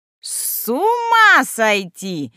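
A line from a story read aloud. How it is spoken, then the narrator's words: Old woman screaming. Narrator (Russian): вопила следом старуха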